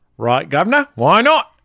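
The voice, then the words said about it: Put-on Cockney accent. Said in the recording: “Can you do a Cockney accent?”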